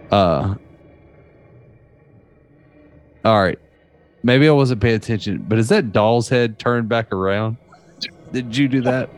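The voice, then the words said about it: Southern American accent. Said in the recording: “my southern accent that just keeps like, it's right here behind me, and it keeps just creeping on me”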